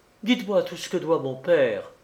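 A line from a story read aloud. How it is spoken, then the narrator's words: Exclaimed. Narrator (French): s'écria-t-elle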